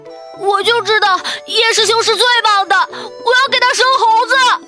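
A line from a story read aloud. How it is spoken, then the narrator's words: Excited woman shouting. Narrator (Chinese): 一个身形丰满的有些过分的雀斑女子激动的大喊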